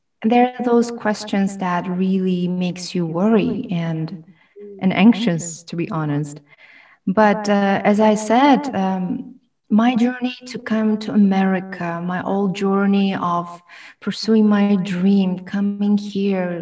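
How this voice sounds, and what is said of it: Foreign accent in English. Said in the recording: “a foreigner being among them, how they would feel about my accent”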